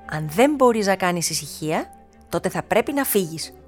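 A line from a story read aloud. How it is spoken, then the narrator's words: Stern voice. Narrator (Greek): είπε με αυστηρή φωνή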